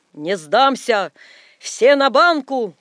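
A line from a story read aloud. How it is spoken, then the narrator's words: Cheerful shout. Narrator (Russian): крикнул он весело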